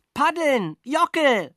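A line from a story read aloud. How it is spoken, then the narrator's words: Shouting while swallowing water. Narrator (German): schrie ich und schluckte dabei mindestens den halben Bach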